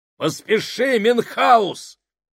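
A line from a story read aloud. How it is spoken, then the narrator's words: Shouted. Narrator (Russian): крикнул Сакс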